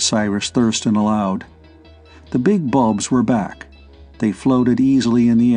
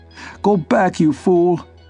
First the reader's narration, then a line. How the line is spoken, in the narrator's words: He was screaming at the top of his voice